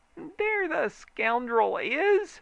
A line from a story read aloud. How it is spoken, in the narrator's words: screeched a familiar voice